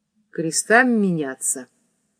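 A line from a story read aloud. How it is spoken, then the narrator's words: Muffled, frightened. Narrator (Russian): Глухо и точно в испуге произнес он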